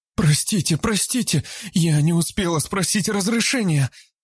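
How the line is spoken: Frightened wailing. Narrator (Russian): Испуганно запричитала Габриэла

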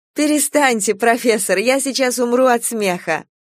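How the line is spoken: Laughing nonstop. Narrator (Russian): Она хохотала без передышки

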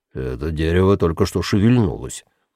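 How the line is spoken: Low voice. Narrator (Russian): низким голосом проговорил он

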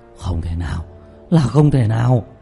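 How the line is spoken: Terrified trembling cry. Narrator (Vietnamese): Diệp Bá lộ ra vẻ hoảng sợ cực độ, cả người run rẩy không ngừng kêu lên

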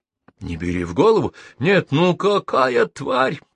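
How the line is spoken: Muffled moaning. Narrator (Russian): продолжал стонать Арчи, по-прежнему закрывая ладонями лицо

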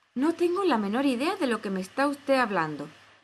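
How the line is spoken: Exclaiming. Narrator (Spanish): exclamó Alicia

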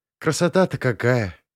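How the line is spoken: Enchanted sigh. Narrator (Russian): очарованно вздохнула Рита

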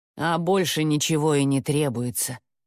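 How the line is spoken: Gloomy. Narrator (Russian): мрачно проговорила Яга

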